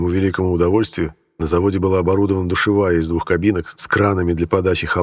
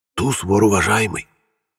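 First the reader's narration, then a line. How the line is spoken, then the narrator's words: Convict's whisper. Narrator (Russian): шепнул один из уголовников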